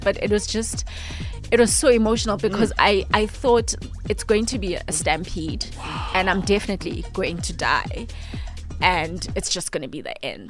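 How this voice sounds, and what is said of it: Voice breaking, close to tears. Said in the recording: “I just started crying. Even my voice is just breaking.”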